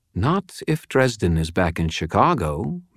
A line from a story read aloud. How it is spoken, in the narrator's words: Madeline said